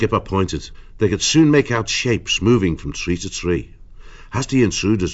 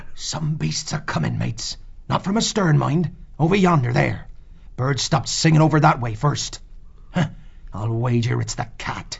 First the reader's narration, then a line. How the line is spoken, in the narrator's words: Skipper said in a gruff whisper